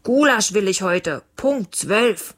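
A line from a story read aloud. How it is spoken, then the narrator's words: Calling after someone. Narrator (German): Leons Papa rief ihm nach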